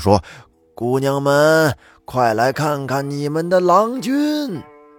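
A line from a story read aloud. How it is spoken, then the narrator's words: Old man's loud call. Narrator (Chinese): 李老汉朝屋里大声的叫喊道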